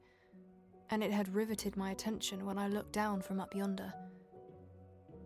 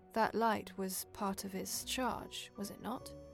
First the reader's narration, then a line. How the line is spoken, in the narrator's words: he answered in a low voice